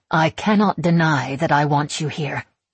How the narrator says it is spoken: she says firmly, I recognize the voice of a sovereign, the one she uses in court rulings

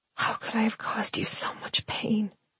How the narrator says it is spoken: I whispered

